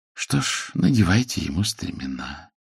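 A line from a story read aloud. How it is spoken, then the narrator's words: Calm. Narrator (Russian): спокойно сказал Генши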